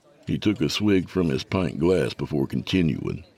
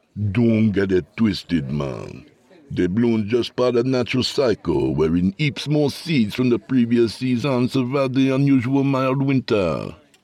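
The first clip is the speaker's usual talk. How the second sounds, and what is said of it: Jamaican accent. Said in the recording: “spoke with a Jamaican accent”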